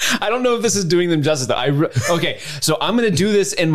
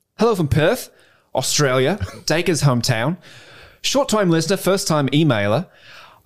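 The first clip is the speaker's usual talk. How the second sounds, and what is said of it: Put-on Australian accent. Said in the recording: “Steve does a phenomenal Australian accent. ... my best Australian accent. I don't think I do a good one.”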